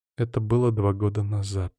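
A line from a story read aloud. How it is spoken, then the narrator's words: Quiet comment. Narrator (Russian): тихо комментирует Ариэль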